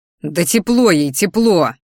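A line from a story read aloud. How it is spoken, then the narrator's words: Angry roar. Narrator (Russian): взревел я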